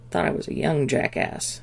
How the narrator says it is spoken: Jack grumbled sotto voce

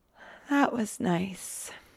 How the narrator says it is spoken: he says drowsily

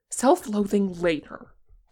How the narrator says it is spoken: Tenkun said impatiently

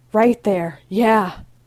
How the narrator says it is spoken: Ray moans

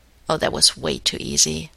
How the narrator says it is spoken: He muttered to Carter

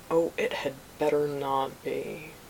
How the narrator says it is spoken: Obi-Wan growled

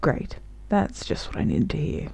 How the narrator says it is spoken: Crowley grumbled

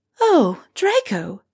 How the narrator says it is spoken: Molly gasps

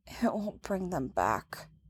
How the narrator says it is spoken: Leia mumbles to her knees

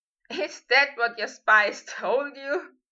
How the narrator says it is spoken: Harry laughed

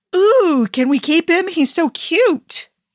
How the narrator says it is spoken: the woman squealed

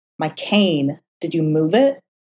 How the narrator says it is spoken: Matt snapped, with what Foggy considered an unnecessary amount of bite in his tone

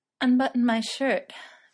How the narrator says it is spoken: Frodo said, panting

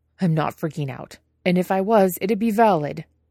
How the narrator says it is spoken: Jiang Cheng snaps

